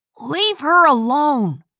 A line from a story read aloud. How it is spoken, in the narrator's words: Lee yelled